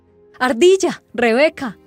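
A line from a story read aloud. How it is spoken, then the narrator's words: Shout. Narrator (Spanish): gritó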